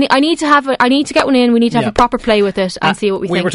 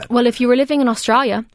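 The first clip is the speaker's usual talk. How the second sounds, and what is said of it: Put-on Australian accent. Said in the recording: “that's my Australian accent, by the way, you're welcome.”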